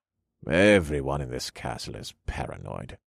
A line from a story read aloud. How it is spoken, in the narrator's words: the courier grumbled